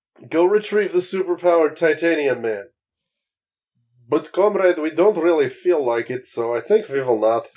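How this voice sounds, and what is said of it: Poor put-on Russian accent. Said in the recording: “my terrible Russian accent ... It's better than what my attempt would be”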